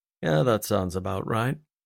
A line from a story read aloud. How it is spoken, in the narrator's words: grumbled